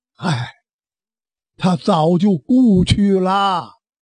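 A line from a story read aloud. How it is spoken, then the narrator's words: Sighing old priest. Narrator (Chinese): 这位道长叹了一口气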